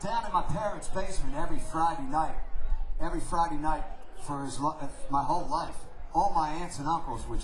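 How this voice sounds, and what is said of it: New York accent. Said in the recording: “I have a kind of a New York accent, but there's a tiny little southern accent ... I'm from South Philadelphia”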